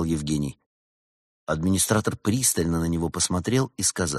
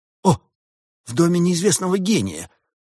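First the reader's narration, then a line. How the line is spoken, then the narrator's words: Tiger exclaiming. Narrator (Russian): воскликнул тигр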